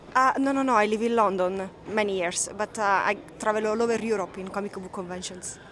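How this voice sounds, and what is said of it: Italian accent. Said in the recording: “Do I detect a Spanish accent, perhaps? ... Italian.”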